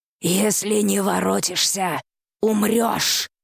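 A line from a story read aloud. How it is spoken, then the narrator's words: Growled. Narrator (Russian): прорычала охотница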